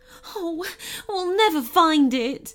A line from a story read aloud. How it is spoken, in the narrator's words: she moaned